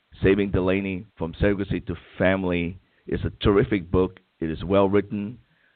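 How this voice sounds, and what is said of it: Rough, hoarse voice. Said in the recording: “I'm coming down with something here, so my voice is rather coarse”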